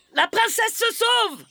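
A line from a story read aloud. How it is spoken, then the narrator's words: Yelling. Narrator (French): hurle-t-il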